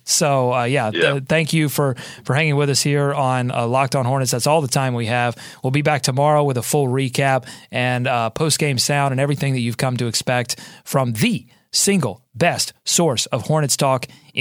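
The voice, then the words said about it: Tired, worn-sounding voice. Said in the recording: “You can tell in my voice. It was a long night.”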